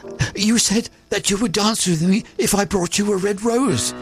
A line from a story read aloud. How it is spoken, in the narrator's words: cried the student